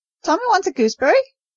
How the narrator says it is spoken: shrieked the macaw

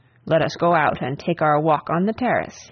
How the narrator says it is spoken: he said, with a short laugh

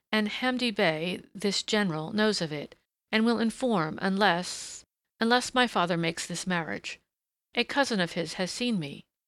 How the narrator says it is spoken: she faltered

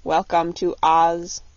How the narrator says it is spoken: said the copper man, in a monotonous voice

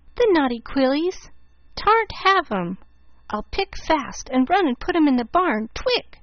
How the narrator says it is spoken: said Teddy, frowning

